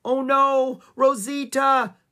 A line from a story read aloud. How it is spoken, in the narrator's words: Annie shouted